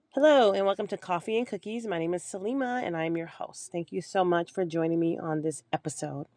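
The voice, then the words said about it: Hoarse voice. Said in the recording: “I'm still dealing with hoarseness ... I got sick and I'm still dealing with the recovery of that ... I sound hoarse”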